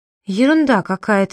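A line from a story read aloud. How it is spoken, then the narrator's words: Trembling voice. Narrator (Russian): дрожащим голосом проговорила Айна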